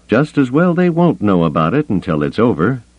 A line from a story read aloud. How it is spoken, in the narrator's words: Gillespie said dryly